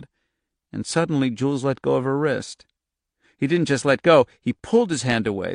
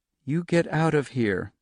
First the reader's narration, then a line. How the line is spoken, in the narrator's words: Charlie said softly